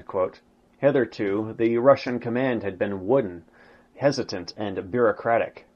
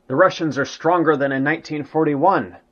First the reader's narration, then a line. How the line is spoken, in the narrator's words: Jodl was seen, white-faced, exclaiming